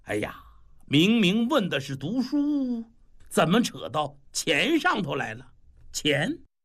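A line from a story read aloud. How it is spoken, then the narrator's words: Laughing, muttering to himself. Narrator (Chinese): 李铁嘴扑哧一下子，哈哈，笑了，自言自语的说了一句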